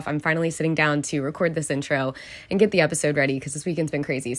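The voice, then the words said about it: Raspy, strained voice. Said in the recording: “my voice is sounding a little raspy ... I have been absolutely screaming my head off for the past 2 days”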